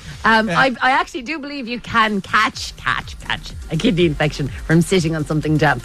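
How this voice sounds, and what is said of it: Irish Kerry accent. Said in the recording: “the way I said catch ... my Kerry accent”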